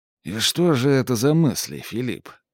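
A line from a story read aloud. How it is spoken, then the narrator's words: Hoarse. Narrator (Russian): хрипло проговорил Макс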